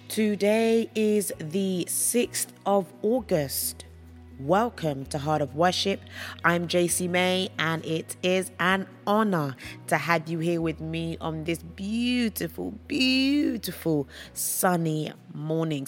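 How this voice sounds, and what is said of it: Hoarse, worn-out voice. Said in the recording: “I have lost my voice. ... I've done a lot of singing, I've done a lot of talking this weekend”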